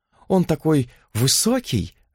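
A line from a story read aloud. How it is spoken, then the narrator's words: Joyful telling. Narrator (Russian): радостно поведала она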